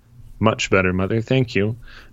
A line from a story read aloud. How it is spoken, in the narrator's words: Ned said, his tone flat